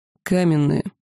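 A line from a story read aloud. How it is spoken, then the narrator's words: Dragon's dry explanation. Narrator (Russian): сухо пояснил черный дракон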